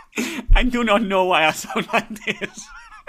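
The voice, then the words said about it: Bizarre put-on Jamaican-sounding accent. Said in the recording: “a bizarre accent ... Like he's a kebab shop owner ... How long have you been living in Jamaica? Since you've come off on your accent.”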